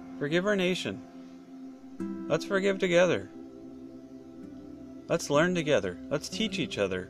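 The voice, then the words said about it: Slurred rambling speech. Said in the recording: “I forgive my voice. I forgive the way I slur. I forgive the way I talk. I forgive the rambling.”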